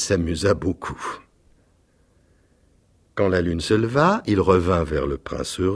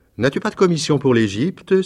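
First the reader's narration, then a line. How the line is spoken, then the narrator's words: Exclaimed. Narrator (French): s'écria-t-il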